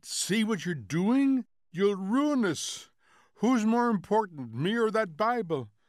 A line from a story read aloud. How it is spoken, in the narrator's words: She was beginning to shriek now